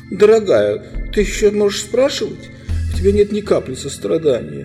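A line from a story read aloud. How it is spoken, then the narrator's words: Reply breaking into sobs. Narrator (Russian): отвечала Лазарелина, начиная по-настоящему рыдать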